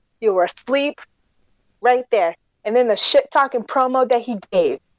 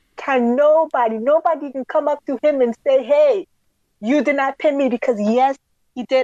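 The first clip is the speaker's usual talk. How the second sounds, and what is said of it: Put-on African accent. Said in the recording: “my African accent came out”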